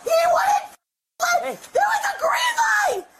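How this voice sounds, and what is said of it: Yelling, panicked. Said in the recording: “Why are you yelling? ... Why are you freaking out?”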